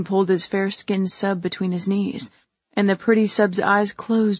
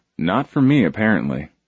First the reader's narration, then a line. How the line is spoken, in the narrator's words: Michael grumbled